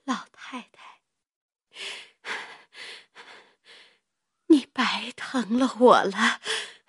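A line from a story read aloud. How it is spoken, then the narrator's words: Breathless, weak. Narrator (Chinese): 喘吁吁的说道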